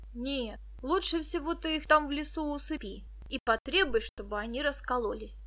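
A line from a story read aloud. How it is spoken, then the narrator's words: Plain. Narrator (Russian): сказал Денис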